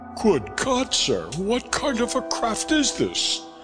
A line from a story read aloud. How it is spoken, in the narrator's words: cried